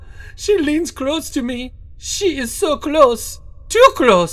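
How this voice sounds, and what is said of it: Put-on French accent. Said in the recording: “Is that accent meant to be French?”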